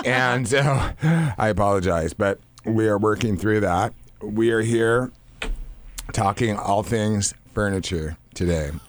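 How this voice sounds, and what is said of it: Raspy voice. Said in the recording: “I have my raspy voice today.”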